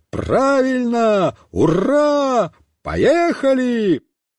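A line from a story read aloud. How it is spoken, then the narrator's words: Yelling at full volume. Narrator (Russian): Александр Семенович тоже завопил во все горло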